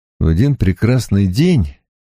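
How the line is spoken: Grim, unspoken. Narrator (Russian): мрачно сказал я себе, вернее, сказал ей, но не вслух

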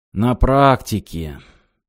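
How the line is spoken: Sighed. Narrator (Russian): адмирал вздохнул

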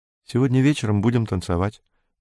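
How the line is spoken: Quick speech. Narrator (Russian): быстро сказала она

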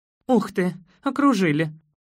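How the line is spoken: Exclaiming. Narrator (Russian): воскликнула она

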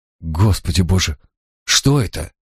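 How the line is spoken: Barely audible breath. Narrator (Russian): Едва слышно выдохнула Тамазин

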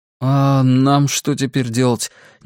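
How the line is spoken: Uncertain question. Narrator (Russian): неуверенно спросил Роланд

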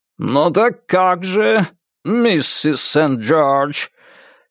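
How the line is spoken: Hard voice. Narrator (Russian): Жестким таким голосом

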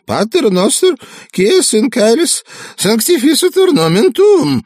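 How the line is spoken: Preacher's trembling voice. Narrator (Russian): проповедник дрожащим голосом произнес

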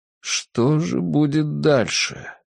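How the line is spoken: Muttered. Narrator (Russian): пробормотал он

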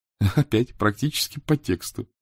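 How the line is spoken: Laughing. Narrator (Russian): засмеялась Софи

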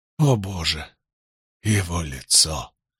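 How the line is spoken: Judge, hoarse wheeze. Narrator (Russian): прохрипел судья

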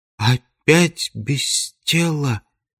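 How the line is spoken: Tearful whisper. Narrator (Russian): прошептала голова Брике, и глаза ее наполнились слезами

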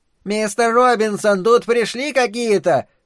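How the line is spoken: Thin creaky shout. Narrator (Russian): прокричала женщина тонким скрипучим голоском

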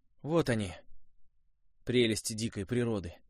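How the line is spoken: Sighing. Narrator (Russian): вздохнул Костя

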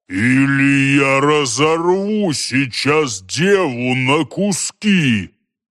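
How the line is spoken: Giant's growl. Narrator (Russian): Гигант прорычал

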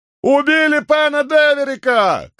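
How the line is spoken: Shout into darkness. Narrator (Russian): крикнул кто-то в темноту

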